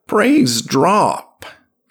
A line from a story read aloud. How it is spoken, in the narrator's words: said the ancient eagerly, his voice cracking